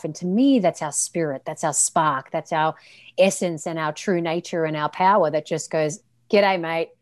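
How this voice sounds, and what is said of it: Speaks with a distinctive accent. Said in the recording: “that accent, that is just gold.”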